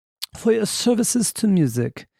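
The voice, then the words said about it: Poor Queen Elizabeth II impression. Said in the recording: “That's not the best impression. How would you say that? I watched the Crown, so I should know this, right? I should have her dialect down, but I don't.”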